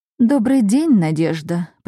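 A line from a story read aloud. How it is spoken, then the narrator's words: Woman purring. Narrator (Russian): промурлыкала женщина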